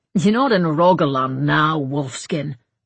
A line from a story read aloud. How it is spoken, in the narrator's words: growled the other